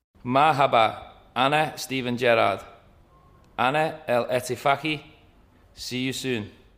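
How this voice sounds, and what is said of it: Arabic spoken in a Scouse accent. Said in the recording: “Arabic in a Scouse accent, never not funny.”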